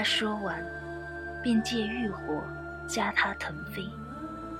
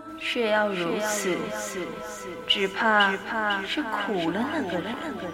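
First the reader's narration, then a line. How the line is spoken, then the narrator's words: Soft sigh. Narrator (Chinese): 王上轻叹一口气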